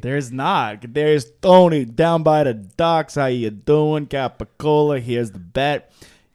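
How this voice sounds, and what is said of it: Italian New York accent. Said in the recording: “you have a pretty solid Italian New York accent.”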